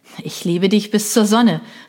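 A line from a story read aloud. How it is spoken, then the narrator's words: Calling out. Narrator (German): rief Benny daraufhin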